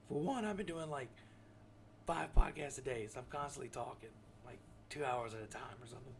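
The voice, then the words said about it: Slightly hoarse voice. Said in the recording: “I'm going a little hoarse. So if I go in and out of voice, you know, in and out of hoarseness, then you know why I'm going hoarse.”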